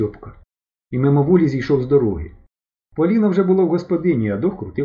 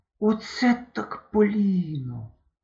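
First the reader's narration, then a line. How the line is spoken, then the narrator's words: Breathless running whisper. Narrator (Ukrainian): шепотів, підбігаючи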